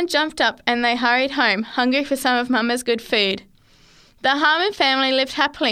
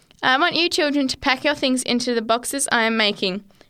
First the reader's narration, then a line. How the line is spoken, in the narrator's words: said